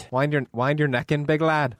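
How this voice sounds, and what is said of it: Put-on Northern Irish accent. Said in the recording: “accent is from, is that Ireland or Scotland or? ... It's Northern Ireland. ... I picked up a wee bit of their accent.”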